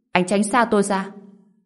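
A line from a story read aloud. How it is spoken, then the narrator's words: Shocked and angry. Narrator (Vietnamese): Diệp Giao vừa kinh ngạc vừa giận dữ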